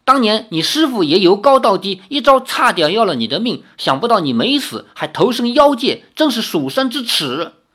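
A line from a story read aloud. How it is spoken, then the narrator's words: Startled shout mid-fight. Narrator (Chinese): 李逍遥 也大吃一惊，连忙舞剑化招，一面喊道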